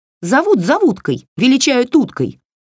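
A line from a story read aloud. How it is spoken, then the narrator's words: Snapping retort. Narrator (Russian): огрызнулась кукла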